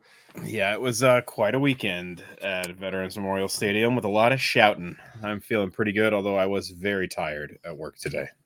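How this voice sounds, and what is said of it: Slightly hoarse voice. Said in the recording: “I'm a little horse”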